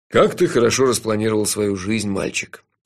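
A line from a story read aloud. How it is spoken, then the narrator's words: Sad, smiling. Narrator (Russian): печально улыбнулся Джуфин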